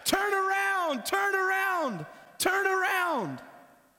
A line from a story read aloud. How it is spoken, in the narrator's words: The fans, his teammates, they're yelling at him